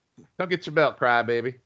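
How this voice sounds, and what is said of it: Put-on Southern accent. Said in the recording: “a better Southern accent than the last one”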